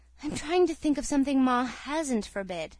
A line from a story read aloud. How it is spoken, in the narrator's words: she answered with a sigh